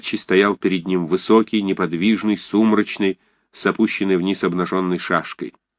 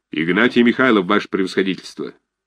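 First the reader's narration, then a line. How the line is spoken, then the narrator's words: Flat wooden soldierly bass. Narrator (Russian): безучастным солдатским деревянным басом ответил Осадчий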